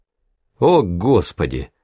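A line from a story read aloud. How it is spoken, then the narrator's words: Groaned. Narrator (Russian): простонал Гуд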